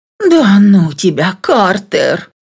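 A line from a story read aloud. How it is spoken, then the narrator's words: Exhaled. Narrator (Russian): выдохнула я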